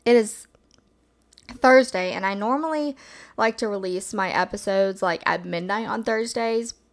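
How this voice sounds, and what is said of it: Hoarse, just-woke-up voice. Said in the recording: “my voice might sound a little bit hoarse because I just woke up”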